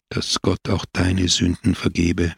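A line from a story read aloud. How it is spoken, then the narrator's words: Fearful whisper. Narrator (German): flüsterte er, und Angst umschnürte sein Herz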